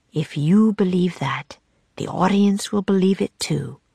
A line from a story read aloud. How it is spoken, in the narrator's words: whispered Will